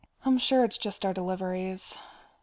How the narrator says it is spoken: Bilbo said with a sigh

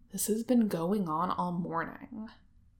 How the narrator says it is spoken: he grumbles

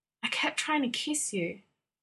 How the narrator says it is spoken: Jim choked out

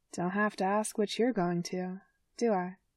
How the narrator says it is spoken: Patrice says quietly

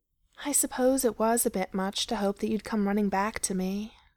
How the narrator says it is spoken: he answered with a sigh

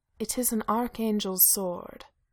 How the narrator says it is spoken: Cass said solemnly

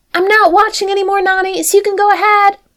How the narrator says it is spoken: Lilo called out from the other side of the kitchen

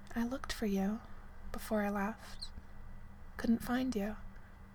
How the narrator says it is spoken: she murmured

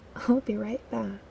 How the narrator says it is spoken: Styles muttered

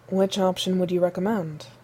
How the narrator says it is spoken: Steve asked, in the same infuriatingly reasonable tone of voice

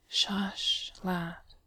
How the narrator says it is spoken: Bilbo murmurs kindly

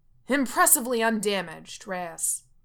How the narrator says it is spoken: Coach yells

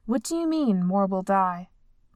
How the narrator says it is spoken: Ibiza demanded sharply

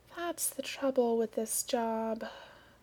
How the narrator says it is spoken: said Pollution gloomily

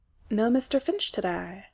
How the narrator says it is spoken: he murmured, an exact reproduction of the tone Reese customarily used to contact his colleague through compin and earbug

